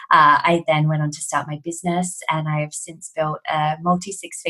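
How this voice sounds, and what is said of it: Australian accent. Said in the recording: “Obviously, you can tell from my accent, I'm Australian.”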